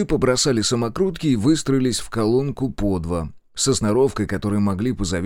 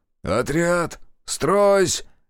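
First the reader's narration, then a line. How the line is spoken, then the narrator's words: Older man barking command. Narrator (Russian): Гаркнул немолодой партизан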